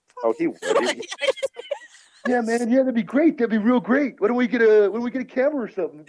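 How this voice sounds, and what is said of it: Imitates another person's voice. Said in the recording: “he totally knows him because that's a spot on ... That is a pretty good impression of Jim.”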